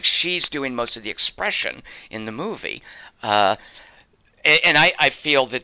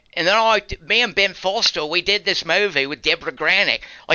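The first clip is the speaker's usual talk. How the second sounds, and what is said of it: Put-on New Zealand accent. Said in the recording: “that's my New Zealand accent, but she's she like Peter Jackson talking”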